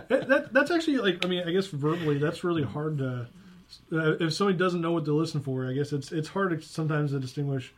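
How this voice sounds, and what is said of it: Rural Southern hillbilly accent. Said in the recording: “my broken hillbilly accent”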